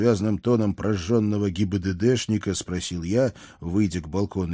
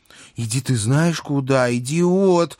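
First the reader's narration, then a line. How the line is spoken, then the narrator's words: She-devil howling furiously. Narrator (Russian): взвыла бесовка, словно разъяренная кошка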